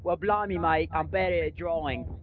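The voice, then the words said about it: Put-on Australian accent. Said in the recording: “if you think my Australian accent is good”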